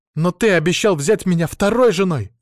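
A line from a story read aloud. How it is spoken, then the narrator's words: Shouted again. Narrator (Russian): снова закричала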